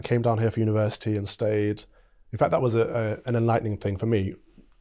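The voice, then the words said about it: English Midlands accent. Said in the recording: “I'm trying to work out your accent. Are you from the Midlands? ... I'm from Mansfield, Nottinghamshire.”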